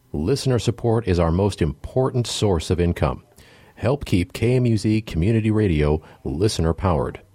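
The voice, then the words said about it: Polished radio announcer voice. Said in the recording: “my radio voice”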